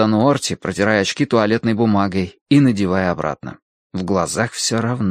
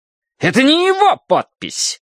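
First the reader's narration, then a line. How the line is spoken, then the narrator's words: Indignant shout. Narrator (Russian): возмущенно выкрикнул он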